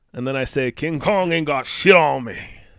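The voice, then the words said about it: Attempted Cajun accent. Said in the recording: “I have no idea how to do a Cajun accent.”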